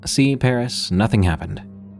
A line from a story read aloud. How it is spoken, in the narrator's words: I said